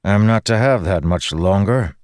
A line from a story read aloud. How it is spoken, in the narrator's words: Dalinar grumbled